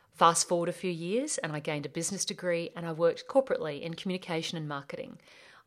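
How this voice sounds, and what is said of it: Australian accent. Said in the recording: “My name's ... and I'm from Australia. Yes, that's my accent.”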